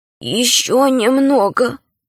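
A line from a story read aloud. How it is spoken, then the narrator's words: Weak voice. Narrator (Russian): сказала Альта слабым голосом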